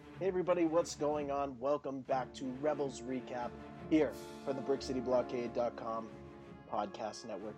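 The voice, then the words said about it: Somber, subdued tone. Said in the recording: “as you can hear in my voice, it's a little bit more somber than usual”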